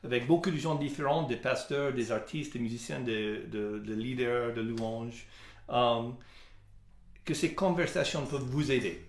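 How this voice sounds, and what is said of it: Non-native French accent. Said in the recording (French): “merci d'avoir supporté mon accent”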